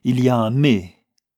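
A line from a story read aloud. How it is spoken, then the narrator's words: Captain exclaiming. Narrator (French): s'écria le capitaine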